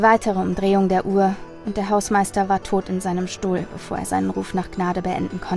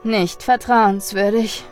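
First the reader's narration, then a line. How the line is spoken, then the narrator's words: Sighing. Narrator (German): sagte der Elektriker seufzend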